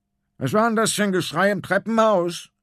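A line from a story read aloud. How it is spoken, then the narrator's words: Calling from a distance. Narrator (German): ruft der große Konrad vom Sofa aus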